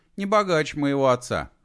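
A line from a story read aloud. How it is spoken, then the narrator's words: Scoffing snort. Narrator (Russian): хмыкнул Алик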